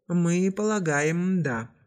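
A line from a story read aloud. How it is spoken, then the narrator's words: Sighing. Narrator (Russian): вздохнул капитан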